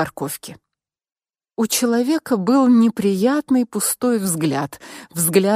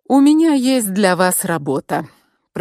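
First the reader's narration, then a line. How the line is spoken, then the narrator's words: Impassive tone. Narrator (Russian): произнес он тем же бесстрастным тоном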